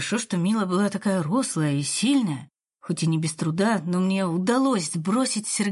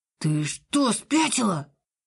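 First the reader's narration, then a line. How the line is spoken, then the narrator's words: Gasping hiss. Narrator (Russian): Тот охнул и зашипел голосом Сергея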